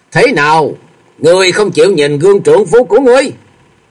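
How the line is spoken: Sudden interrupting shout. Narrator (Vietnamese): Cửu Âm giáo chủ bỗng quát lên ngắt lời

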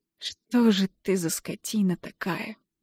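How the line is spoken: Hoarse question. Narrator (Russian): хрипло спрашиваю я

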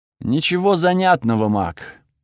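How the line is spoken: Bored voice. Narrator (Russian): скучным голосом ответил Тихирос

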